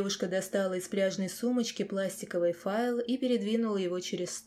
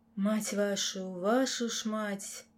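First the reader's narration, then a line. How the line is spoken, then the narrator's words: Quiet drawl under breath. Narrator (Russian): Тихонько протянул себе под нос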